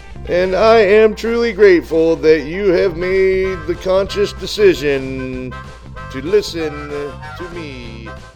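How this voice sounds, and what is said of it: Cheesy showman-host impersonation. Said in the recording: “this really cheesy Ed Sullivan impersonation”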